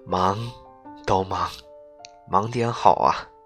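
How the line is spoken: Smiling murmur. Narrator (Chinese): 她微笑着喃喃道

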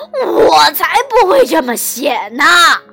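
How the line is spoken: Lamenting. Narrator (Chinese): 狮子哀叹着说

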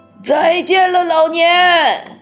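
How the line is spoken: Old woman calling out. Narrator (Chinese): 约瑟芬奶奶叫道

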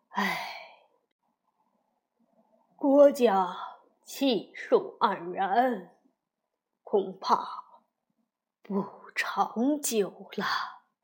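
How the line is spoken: Drunk, long sigh. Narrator (Chinese): 已喝得有点醉了，长叹一声道

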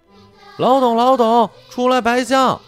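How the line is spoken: Calling from downstairs. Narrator (Chinese): 小黑皮跟鼻涕虫在楼下叫

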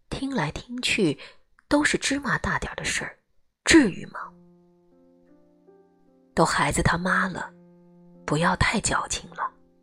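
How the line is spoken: Quiet muttering. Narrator (Chinese): 姨妈小声嘀咕一句

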